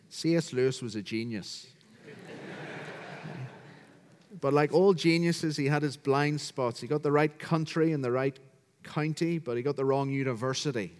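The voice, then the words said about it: Northern Irish accent. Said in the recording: “as you can hear from my accent, I'm from County Down, Northern Ireland”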